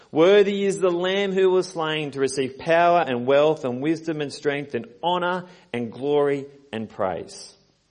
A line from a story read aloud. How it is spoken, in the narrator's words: in a loud voice they sang